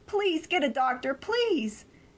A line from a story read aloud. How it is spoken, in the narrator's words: I yelled at him